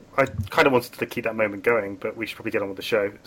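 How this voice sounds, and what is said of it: British accent. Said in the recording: “the podcast would have British people in it ... the illusion of the British accent”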